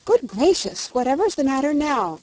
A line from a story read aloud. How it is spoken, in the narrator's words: cried Dorothy